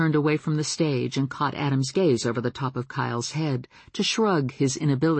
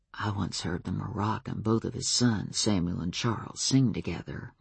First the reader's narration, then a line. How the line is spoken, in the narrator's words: murmured Warren, so softly I doubt anyone else heard him